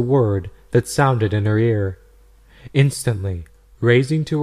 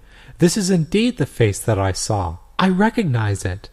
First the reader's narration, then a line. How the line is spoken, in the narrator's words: On seeing the first picture, she exclaimed